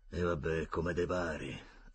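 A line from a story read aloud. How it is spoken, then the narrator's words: Grudging mutter through teeth. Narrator (Italian): ammise tra i denti Zambuia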